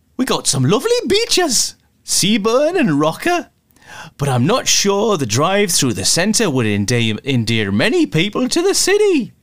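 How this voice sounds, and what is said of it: Poorly done put-on regional accent. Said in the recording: “Terrible accent, sorry.”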